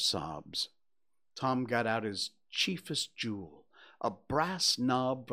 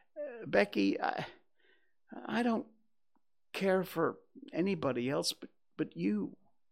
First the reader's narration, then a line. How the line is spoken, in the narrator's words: not knowing exactly how to proceed, he said hesitantly